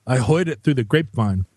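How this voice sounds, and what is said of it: Southern accent with Queens-Bronx twang. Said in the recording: “there's a kind of Southern accent ... where the Southern accent takes on characters of a kind of Queens Bronx accent.”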